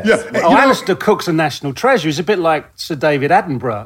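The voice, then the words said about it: Slight British accent. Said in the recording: “you're over from the UK, so that accounts for your bit of an accent there ... just a touch”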